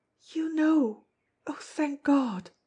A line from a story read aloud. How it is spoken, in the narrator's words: cried tremulously